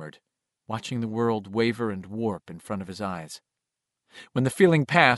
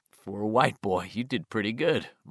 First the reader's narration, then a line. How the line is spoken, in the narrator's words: Mike croaked